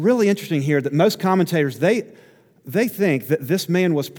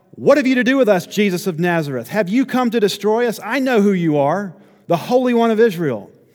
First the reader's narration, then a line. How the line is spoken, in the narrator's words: a man with an unclean spirit, and he cried out